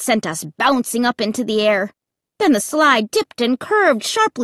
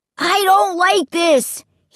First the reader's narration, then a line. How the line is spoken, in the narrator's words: he shouted in my ear